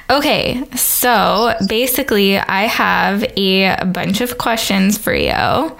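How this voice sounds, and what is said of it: Smooth sultry radio-style voice. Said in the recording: “podcast voice ... you're like you're on the radio ... it is very good ... Like sultry.”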